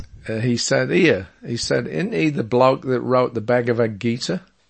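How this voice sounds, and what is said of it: Cockney London accent. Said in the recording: “He was a Cockney, so that's a, you know, London accent.”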